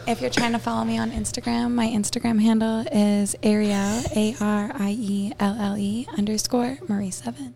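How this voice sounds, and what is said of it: Slow, sensual, breathy delivery. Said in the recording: “That sounded very sensual ... Should I say it slower? ... I can say it even ... Slower ... Who are you talking to like that?”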